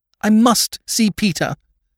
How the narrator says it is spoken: cried Lady Mary

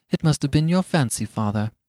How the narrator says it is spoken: said his wife, regarding him anxiously

